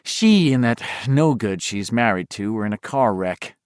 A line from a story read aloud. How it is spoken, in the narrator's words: Beverly's mother said grimly